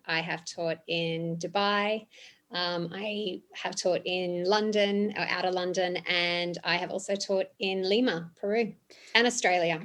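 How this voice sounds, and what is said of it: Australian accent. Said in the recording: “I can hear it in the accent.”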